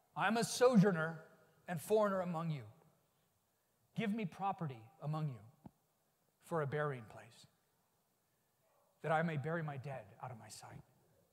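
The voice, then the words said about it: Abraham character voice. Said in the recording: “do my Abraham voice”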